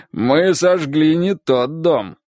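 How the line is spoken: Laughing. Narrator (Russian): рассмеялся он

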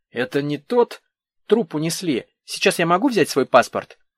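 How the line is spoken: Sharp interruption. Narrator (Russian): Татьяна резко прервала размышления следователя

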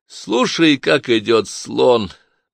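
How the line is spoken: Suggestion, then laughter. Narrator (Russian): предложил Клай и рассмеялся

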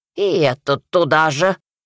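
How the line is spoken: Old witch snorting. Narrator (Russian): фыркнула яга

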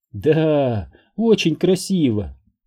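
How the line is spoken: Tender, tearful, smiling. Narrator (Russian): сквозь слезы ласково улыбнулась Элизабет

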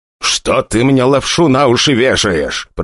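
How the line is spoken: Growl, less confident. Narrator (Russian): прорычал папаша, но совсем уже не так уверенно, как прежде

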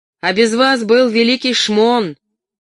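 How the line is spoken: Shouted. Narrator (Russian): Урка крикнула

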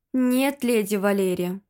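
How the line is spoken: Sighing. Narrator (Russian): вздохнул Файн

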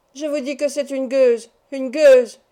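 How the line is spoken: Furious screaming. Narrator (French): hurlait Nan, dont la colère, étranglée tout d'abord par la stupeur, se répandait maintenant en un flot d'invectives

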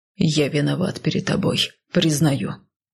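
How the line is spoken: Growled. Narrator (Russian): прорычал он

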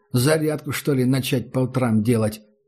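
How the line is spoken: Male snort. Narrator (Russian): Он хмыкнул

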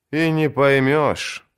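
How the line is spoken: Sad. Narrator (Russian): грустно произнес кто-то

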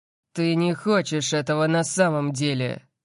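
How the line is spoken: Growl. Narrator (Russian): прорычал Лайонелл

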